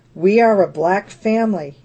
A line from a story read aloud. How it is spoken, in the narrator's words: said